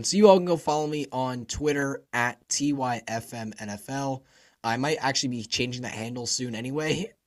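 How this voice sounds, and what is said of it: Strained voice that keeps breaking. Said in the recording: “sorry about my voice ... I was really hoping I could get through today without it, like, breaking”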